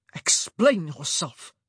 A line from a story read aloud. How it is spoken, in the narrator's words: he hissed